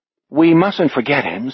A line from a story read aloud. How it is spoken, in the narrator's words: Sophie murmurs